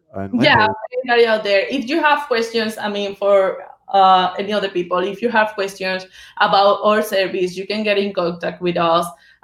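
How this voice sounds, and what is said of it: Spanish-accented English. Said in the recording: “I barely speak English. I speak English. I have my accent, but I can speak English. I speak Spanish original.”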